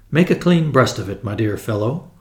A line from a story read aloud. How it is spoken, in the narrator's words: I said kindly